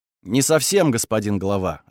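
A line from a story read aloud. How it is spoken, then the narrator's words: Plain. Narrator (Russian): ответил я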